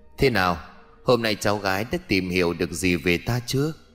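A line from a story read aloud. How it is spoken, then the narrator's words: Aggrieved smiling girl. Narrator (Vietnamese): Bóng hình cô gái khuôn mặt ủy khuất mỉm cười mà nói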